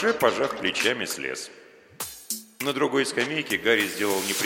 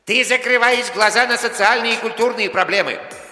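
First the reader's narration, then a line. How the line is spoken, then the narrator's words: Shouted. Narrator (Russian): крикнул ему Гарри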